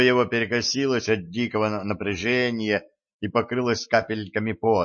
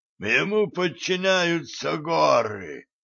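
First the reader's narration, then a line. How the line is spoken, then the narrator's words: Wheezing dwarf. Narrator (Russian): просипел гном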